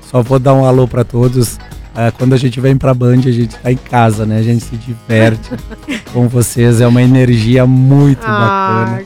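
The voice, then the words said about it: Muffled, impaired voice. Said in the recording (Portuguese): “eu tô com a voz desse jeito, gente. Desculpa. ... perdoa, turma, essa minha voz. Parece que eu tô falando dentro de um balde.”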